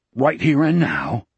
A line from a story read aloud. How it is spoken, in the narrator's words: Wolf mumbled, as if by rote